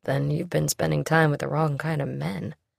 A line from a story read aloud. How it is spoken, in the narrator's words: he said quietly